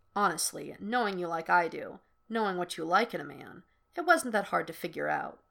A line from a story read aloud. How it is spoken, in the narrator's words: Kirk murmurs, keeping his voice down